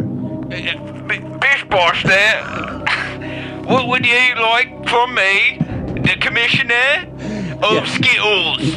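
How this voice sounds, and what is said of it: Over-the-top Cockney English accent. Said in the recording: “an over-the-top English Cockney accent ... So bad”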